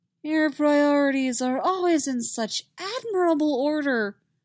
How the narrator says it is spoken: Roy drawls

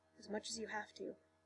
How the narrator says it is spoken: he said softly

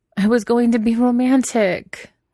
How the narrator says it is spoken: wailed

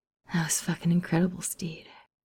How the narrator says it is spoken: Ed murmured against his skin

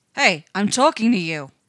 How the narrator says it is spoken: Dom roars

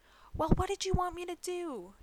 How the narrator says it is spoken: Jackie bellows back

